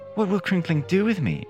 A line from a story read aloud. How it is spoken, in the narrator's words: she asked anxiously